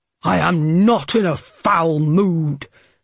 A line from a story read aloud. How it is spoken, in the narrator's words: Harding snarled